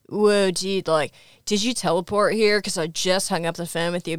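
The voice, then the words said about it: Stereotypical California surfer accent. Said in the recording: “really intense, like stereotypical, almost like surfer guy, California accent ... He sounds like he's doing an impersonation of like the Californian sketch on SNL”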